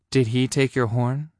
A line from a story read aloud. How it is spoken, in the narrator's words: he asked quietly